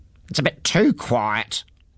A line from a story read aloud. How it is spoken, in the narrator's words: grumbled to himself